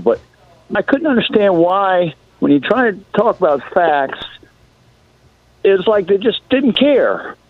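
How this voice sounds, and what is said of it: Hoarse, strained voice. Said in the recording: “I've lost my voice from trying to explain things to Trump people”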